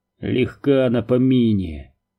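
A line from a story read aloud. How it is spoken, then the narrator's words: Grumbling. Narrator (Russian): проворчал тот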